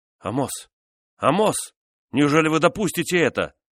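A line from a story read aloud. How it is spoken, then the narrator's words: Shouting in French. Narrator (Russian): кричал гвардеец по-французски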